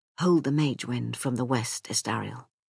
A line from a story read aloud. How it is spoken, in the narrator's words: He said, whispering